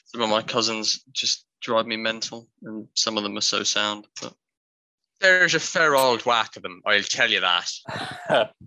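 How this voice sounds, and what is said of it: Well-practiced put-on regional accent. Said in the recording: “Accent is on point. Well done, you. ... You've been practicing that one, haven't you?”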